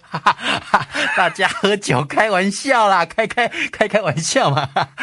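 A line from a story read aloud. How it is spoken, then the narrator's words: Hurried, placating laughter. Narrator (Chinese): 李儒 赶快陪着笑脸说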